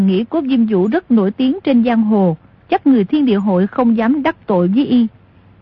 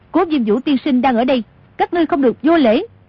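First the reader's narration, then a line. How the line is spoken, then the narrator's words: Loud call. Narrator (Vietnamese): Tô Thuyền cao giọng gọi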